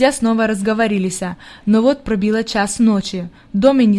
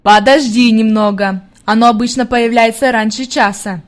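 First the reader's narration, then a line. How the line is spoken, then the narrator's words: Plain. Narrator (Russian): ответил его друг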